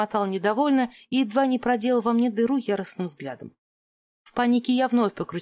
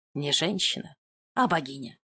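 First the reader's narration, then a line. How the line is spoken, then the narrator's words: Mutter. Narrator (Russian): пробормотал Бенни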